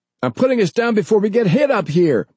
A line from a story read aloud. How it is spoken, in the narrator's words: the pilot shouted